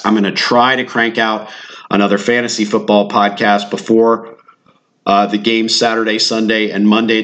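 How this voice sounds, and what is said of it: Sick, rough-sounding voice. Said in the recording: “apologize for my voice. I'm sick.”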